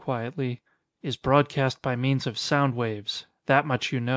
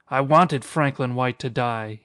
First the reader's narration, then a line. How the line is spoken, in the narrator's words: he cried